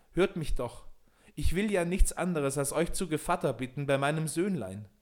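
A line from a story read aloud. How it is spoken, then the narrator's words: Loud call. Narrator (German): rief er laut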